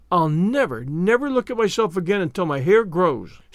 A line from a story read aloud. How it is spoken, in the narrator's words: she exclaimed